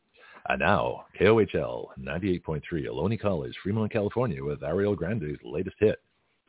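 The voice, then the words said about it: Deep radio announcer voice. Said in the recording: “my deep voice... this deep voice, old guy, broadcasting on college radio”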